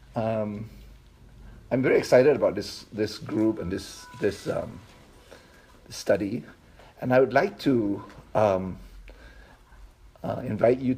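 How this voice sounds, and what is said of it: Accent that is hard to understand. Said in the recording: “my accent is hard to understand”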